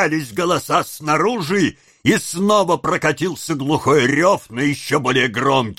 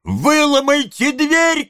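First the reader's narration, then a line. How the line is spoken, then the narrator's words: Boy shouting. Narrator (Russian): кричал мальчик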